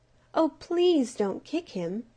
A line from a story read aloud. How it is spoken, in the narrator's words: pleaded the little glowworm